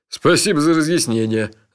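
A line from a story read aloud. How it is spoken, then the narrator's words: Laughing. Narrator (Russian): рассмеялся Джуфин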